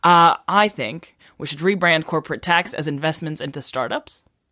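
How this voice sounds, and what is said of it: Put-on American accent. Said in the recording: “my American accent”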